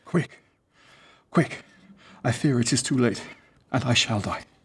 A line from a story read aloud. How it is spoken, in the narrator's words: sighed the king, muttering and murmuring at his ear